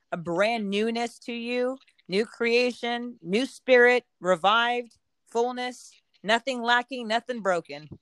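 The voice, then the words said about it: North Carolina Southern accent. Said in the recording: “they're from North Carolina ... I don't know what it is about the accent, but it just feels more blessed”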